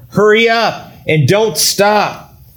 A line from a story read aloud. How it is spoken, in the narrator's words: Jonathan called out to him